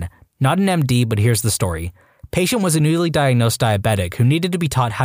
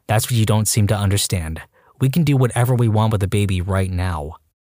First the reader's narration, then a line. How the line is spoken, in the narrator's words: In a level voice, told